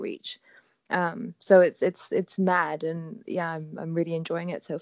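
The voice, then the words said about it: Near-British accent. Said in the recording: “you sound almost British ... I get my accent from my dad”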